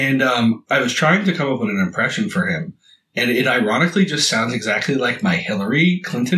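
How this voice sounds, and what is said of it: Usual voice. Nothing is said of it.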